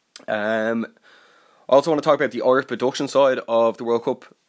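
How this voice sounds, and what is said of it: Slightly congested, throaty voice. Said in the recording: “there's something in my throat. I have a bit of a cold.”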